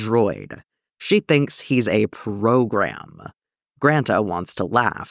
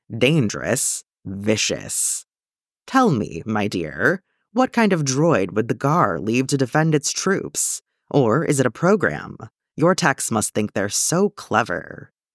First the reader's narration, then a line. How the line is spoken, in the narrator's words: she purrs